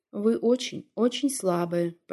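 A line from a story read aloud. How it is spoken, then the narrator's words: Quiet, half to himself. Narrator (Russian): произнес Луганин тихо, почти не обращаясь к Антонине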